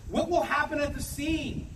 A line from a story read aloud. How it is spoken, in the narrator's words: Gershon pleaded